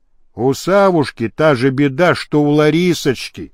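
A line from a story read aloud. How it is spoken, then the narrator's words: Sighing. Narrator (Russian): Стрельский вздохнул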